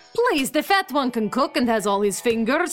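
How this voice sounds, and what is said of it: Put-on Eastern European accent. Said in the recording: “I thought you were Russian. Can't you tell from my perfect regional dialect? I'm Romanian, but nobody here can tell the difference.”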